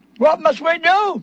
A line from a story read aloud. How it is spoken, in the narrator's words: they cried